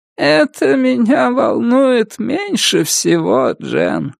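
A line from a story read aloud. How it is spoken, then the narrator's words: Creaky voice. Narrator (Russian): сказала Астрид скрипучим голосом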